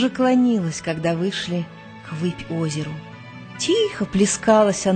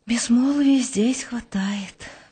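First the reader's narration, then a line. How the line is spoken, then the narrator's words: Sighing woman. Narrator (Russian): вздохнула Гурвич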